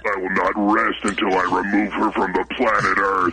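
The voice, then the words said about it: Deep demonic Satan-like voice. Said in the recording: “I'm sorry. I had some gas... It didn't sound like that at all... I was a little hoarse. I woke up with a frog in my throat... it sounded like Satan... the voice that was coming out of you saying hate”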